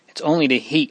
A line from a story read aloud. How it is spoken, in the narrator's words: murmured Marie faintly